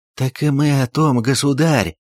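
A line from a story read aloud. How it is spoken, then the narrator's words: Relieved exhale, group. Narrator (Russian): Строгановы облегченно выдохнули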